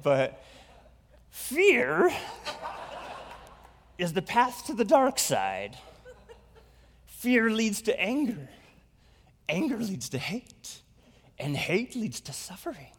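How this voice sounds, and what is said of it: Not-so-good Yoda voice. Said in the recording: “I can't just read this quote in my normal voice ... I don't have a good Yoda impression”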